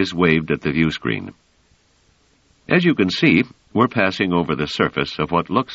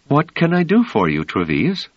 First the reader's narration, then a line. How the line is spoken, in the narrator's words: She said with a smile, and in a perfectly pleasant tone